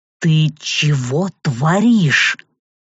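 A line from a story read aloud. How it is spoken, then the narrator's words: Hiss. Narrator (Russian): прошипел Арт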